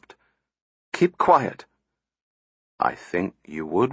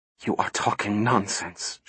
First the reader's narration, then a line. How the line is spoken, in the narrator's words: she whispered